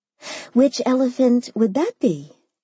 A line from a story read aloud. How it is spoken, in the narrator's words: I asked sweetly